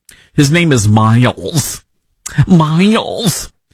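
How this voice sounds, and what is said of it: Put-on Michigan accent. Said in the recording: “that's my Michigan accent. I'm still working through the Michigan accent from Congress gal”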